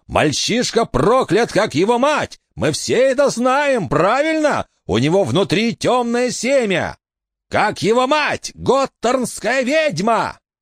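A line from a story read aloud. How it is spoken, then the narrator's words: Man shouting. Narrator (Russian): Еще один мужчина, Джон узнал голос Ральфа Лейтона, закричал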